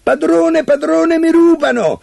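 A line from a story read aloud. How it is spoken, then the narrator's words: Harp suddenly shouting. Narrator (Italian): l'arpa un tratto si mise a gridare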